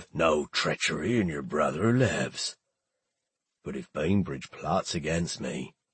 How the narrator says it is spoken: He kept his voice low

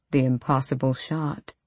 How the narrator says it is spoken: Sartak murmured

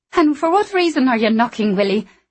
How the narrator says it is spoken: Anna said, in an angry voice that did nothing to mask her fear

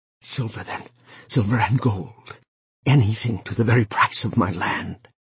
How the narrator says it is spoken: Wang Long, hearing this, felt his mouth suddenly dry and parched, and his voice came from him in a whisper

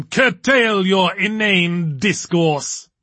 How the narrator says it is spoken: boomed Diablerie, his voice echoing nicely throughout the hall

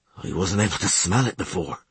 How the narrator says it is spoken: mumbled Dusart, in a voice full of disgust

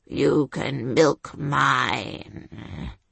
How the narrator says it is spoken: said Sir Rollo in a low, filthy growl

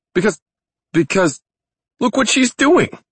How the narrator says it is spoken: He cried out

